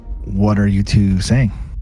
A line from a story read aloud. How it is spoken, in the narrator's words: not understanding what's being said, and just kind of quietly says to Bart